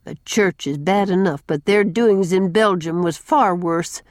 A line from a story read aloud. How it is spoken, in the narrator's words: said Susan grimly